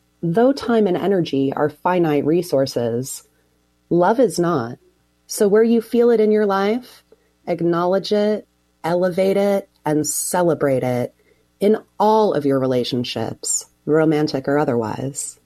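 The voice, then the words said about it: Sultry, sexy voice. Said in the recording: “Man, isn't that sexy? ... That's a sexy voice.”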